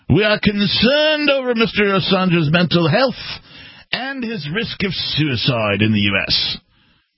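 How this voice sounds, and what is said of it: Attempted English accent. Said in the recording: “Is that an English accent? I think so. I was trying. ... that was definitely not a female British accent you did.”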